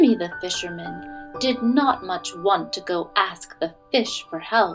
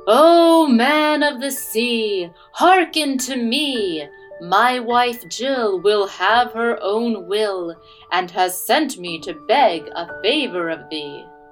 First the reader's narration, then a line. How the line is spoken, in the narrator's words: Jimmy stood at the water's edge and called out